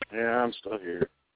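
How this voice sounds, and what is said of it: Bored, flat-sounding voice. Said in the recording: “You sound so bored.”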